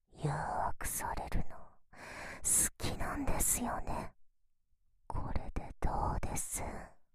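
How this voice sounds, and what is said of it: Whispering. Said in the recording (Japanese): “私のささやき、好きですよね”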